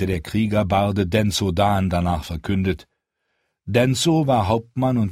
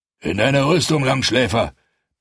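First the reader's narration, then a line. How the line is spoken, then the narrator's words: Roar. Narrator (German): brüllte er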